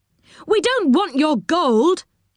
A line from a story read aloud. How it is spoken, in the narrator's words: cried Rick